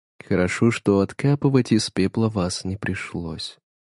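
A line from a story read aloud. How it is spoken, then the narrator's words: Even, level voice. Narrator (Russian): ровным голосом произнесла она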